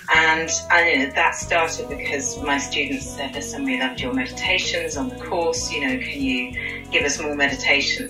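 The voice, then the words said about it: British accent. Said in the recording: “I'm from the UK, unless you couldn't tell from my accent. Very British, darling.”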